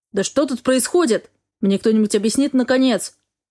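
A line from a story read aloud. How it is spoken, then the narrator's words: Barked. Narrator (Russian): Рявкнул мужчина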